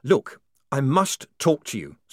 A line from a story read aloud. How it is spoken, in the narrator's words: said the man urgently